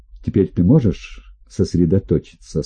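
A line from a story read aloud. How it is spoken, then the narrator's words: Plain. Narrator (Russian): спросил я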